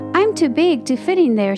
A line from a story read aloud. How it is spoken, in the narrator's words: she said